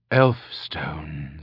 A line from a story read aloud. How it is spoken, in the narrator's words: she said softly